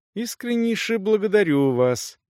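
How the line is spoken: Moved mumble. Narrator (Russian): пробормотал наш друг, явно растроганный

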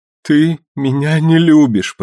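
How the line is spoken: Sobbing. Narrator (Russian): прорыдала она

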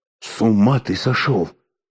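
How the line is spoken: Hissed. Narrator (Russian): зашипел на него Алеша

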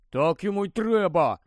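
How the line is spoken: Grumbled. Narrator (Ukrainian): буркнув Рон

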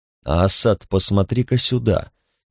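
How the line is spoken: Forced quiet, even voice. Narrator (Russian): сказал он, стараясь, чтобы его голос звучал тихо и ровно

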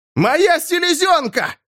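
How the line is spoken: Shout. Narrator (Russian): закричал лорд Сен-Хум снова

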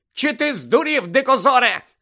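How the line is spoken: Shrieking. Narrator (Ukrainian): заверещала Тонкс

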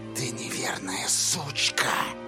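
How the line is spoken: Whispered. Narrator (Russian): прошептала Корделия

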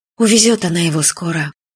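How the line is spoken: Sad, to herself. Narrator (Russian): печально сказала себе Юля

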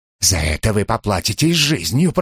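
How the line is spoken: Menacing hiss. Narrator (Russian): прошипел Деверо

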